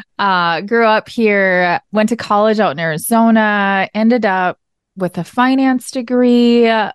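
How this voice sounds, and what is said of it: Minnesota accent. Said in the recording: “I am from Minnesota. You can probably hear it in the accent.”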